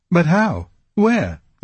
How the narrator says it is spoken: they cried in chorus

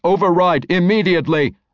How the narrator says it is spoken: Alpha said, his metallic voice as close as it could get to yelling

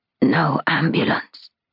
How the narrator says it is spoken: she whispers

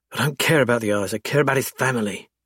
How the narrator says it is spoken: she snaps and then sighs

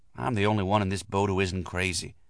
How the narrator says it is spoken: I whispered to myself

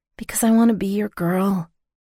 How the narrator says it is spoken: I whispered over his mouth

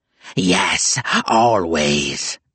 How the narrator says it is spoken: the demon shrieked

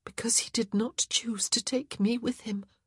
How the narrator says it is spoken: her lip quivered and her eyes started to prick with tears, and her voice was terribly small as she said

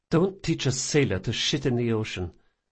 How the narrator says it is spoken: she muttered

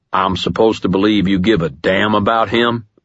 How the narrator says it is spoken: Ebenezer snarled

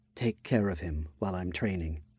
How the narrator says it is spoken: Tsubaki said, in a soft tone

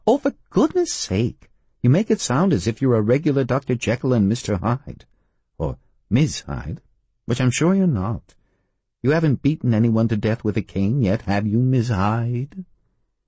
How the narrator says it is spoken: Ginger laughed

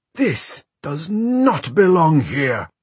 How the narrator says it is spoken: the priest thundered

